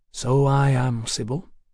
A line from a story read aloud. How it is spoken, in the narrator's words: said softly